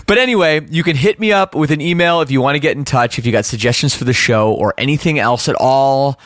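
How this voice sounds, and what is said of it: Slight Canadian accent. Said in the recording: “the Canadian is coming back in me. Is my accent back? ... my Canadian accent is creeping back in”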